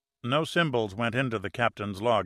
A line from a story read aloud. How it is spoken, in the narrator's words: answered Pitt